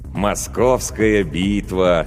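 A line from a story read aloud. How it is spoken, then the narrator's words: Dreamy drawl. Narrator (Russian): мечтательно протянул лейтенант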